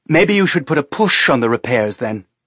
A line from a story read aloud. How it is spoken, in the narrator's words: Teresa said harshly